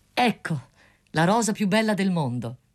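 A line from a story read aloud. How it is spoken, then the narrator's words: Student exclaiming. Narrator (Italian): esclamò lo studente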